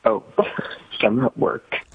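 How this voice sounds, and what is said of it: Speaking very quietly. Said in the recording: “Why are you talking so quietly?”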